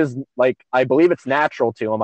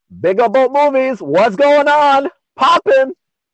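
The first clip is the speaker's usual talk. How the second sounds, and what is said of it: Put-on Jamaican accent. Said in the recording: “He has a Jamaican accent ... I don't think he just did it the way I'm gonna do it right now.”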